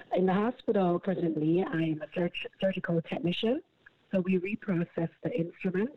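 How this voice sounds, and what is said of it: Jamaican accent. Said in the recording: “I'm from Jamaica with the accent.”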